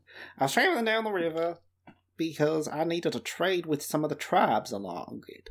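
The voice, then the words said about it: Put-on gnome accent. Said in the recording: “I don't know why I have a gnome accent.”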